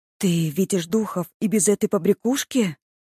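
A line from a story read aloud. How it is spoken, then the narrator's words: Surprised exclamation. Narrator (Russian): воскликнула удивленно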